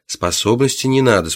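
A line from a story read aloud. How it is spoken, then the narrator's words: Calm reply. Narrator (Russian): спокойно ответил служащий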